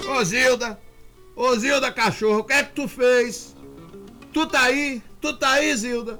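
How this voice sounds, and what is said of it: Drunken, slurred shouting voice. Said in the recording (Portuguese): “A voz dele, Rivamar, não tava normal, não. Tava com voz de bêbado.”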